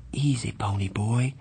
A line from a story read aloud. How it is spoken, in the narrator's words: he said softly